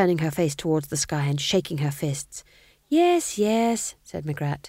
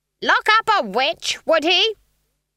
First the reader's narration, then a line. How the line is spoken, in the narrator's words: Granny shouted at the trees